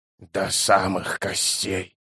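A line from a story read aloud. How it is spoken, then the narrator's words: Whispered. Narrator (Russian): прошептал заклинатель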